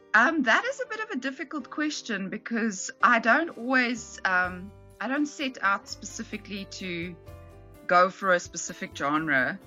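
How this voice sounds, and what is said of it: South African English accent. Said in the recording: “We speak a very South African English here that's obviously very influenced by British English, but also I speak Afrikaans as well ... so I have a bit of that in my accent as well.”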